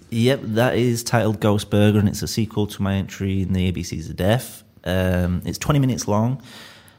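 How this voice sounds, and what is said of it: Leeds accent. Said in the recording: “people really seem to get a kick out of my accent ... I'm from Leeds”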